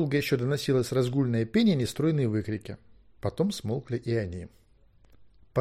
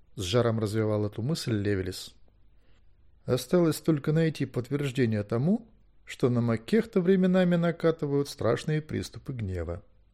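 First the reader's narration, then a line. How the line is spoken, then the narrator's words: Calm. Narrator (Russian): спокойно сказал Гвидион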